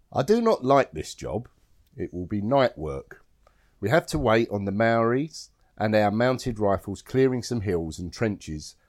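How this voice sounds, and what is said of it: Put-on New Zealand accent. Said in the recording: “give it your full New Zealand accent ... So I think this is what a New Zealander sounds like.”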